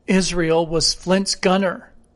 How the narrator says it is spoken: said Gray, hoarsely

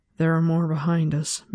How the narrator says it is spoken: Min murmured

